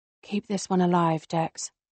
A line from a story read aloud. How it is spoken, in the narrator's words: I murmur